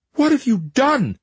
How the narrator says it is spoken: Lavinia cried

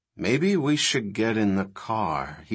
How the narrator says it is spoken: he said quietly

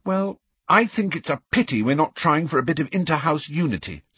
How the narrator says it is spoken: said Hermione crossly

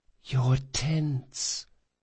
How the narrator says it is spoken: whispered Felice

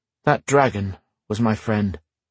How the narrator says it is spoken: said Matthew quietly

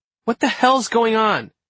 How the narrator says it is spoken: exclaimed Rose

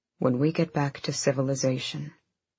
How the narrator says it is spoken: he said, his voice deepening

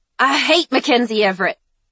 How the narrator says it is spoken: Layla spat

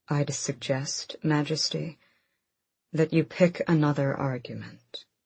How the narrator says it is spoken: Adian's father who said calmly

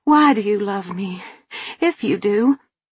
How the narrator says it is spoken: I breathlessly demanded

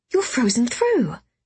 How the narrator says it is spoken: I exclaimed

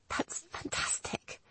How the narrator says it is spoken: she whispered hoarsely

